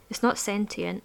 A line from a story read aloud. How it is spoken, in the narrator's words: said Corsi